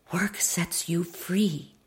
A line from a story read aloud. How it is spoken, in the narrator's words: my mother whispered